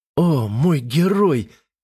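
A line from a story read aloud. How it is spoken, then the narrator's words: Moaning. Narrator (Russian): простонала она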